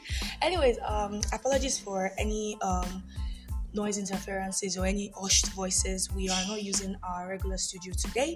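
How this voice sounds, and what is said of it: Slightly hoarse voice. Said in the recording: “my voice is slightly hoarse. I lost it.”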